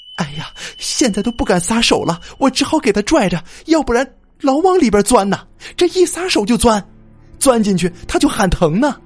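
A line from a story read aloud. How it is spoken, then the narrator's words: Crying. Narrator (Chinese): 他哭着就对镇长说了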